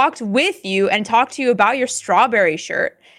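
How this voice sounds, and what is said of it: Usual voice. Nothing is said of it.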